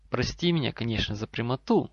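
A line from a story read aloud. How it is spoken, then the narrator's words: Calm. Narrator (Russian): спокойно вступил Рэндальф Ли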